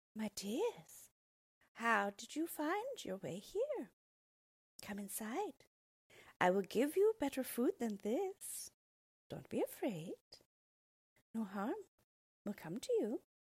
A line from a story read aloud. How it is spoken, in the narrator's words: she smiled at them and said sweetly